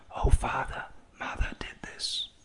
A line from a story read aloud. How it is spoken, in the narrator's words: whispered to his ear